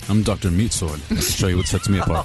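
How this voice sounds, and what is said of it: Imitates another person's voice. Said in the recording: “talking to herself as Gene Simmons now ... your Gene Simmons impression? ... Very nice ... she's doing a Gene Simmons on herself”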